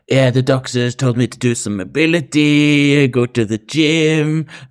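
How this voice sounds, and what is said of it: Bad put-on accent. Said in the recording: “This is a really bad Erie accent.”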